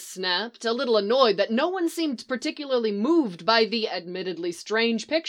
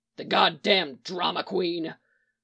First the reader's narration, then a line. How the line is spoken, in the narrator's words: Mick growled